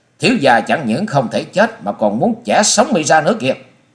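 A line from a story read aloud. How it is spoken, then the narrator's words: Hissing scream. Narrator (Vietnamese): Chàng rít giọng thét lên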